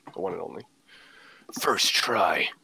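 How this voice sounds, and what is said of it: Lego Batman voice impression. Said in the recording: “That was my Lego Batman impression.”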